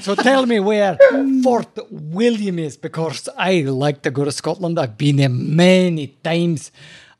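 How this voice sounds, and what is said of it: Bad put-on Scottish accent. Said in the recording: “It's like his third accent today. It's so bad. ... by far me favorite accent is the Scottish accent.”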